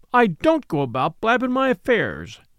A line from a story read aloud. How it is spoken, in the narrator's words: said Lanty indignantly